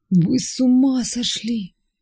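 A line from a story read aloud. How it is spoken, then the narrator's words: Tearful voice. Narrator (Russian): плачущим голосом сказал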